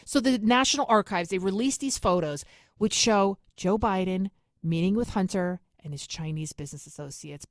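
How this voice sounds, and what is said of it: New York accent. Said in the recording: “my New York accent”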